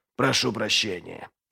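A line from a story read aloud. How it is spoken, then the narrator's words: Mumbled. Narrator (Russian): пробормотал он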